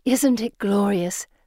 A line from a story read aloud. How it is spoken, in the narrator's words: Felicity sighs